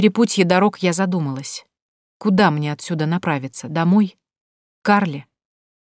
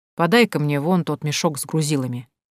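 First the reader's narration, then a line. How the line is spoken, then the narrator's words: Grumbling. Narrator (Russian): буркнул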